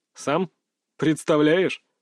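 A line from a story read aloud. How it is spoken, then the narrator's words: Laughing chuckle. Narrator (Russian): хохотнул Салтыков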